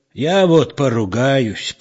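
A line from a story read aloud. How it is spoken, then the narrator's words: Old man's grumble. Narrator (Russian): проворчал старик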